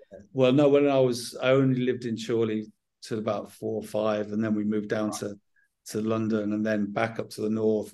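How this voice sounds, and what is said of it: Southern English accent. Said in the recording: “a southern accent ... So I always had a southern accent from a young lad”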